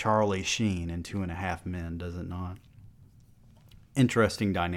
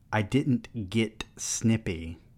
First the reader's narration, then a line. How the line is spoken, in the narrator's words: Joel said